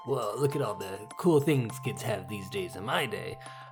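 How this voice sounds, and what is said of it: Old man voice. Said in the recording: “like that voice. ... that's my old man voice.”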